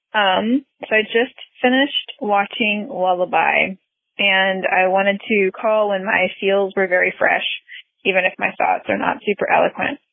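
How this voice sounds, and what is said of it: Husky, congested-sounding voice. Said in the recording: “I hope my voice sounds extra sexy because of all the pollen in the air.”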